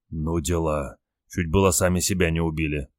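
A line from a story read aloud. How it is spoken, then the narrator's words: Frightened whisper. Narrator (Russian): прошептал побледневший Олег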